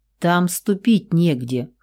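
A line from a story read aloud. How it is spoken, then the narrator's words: Knowing smirking snort. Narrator (Russian): хмыкнул ведьмак, улыбаясь так многозначительно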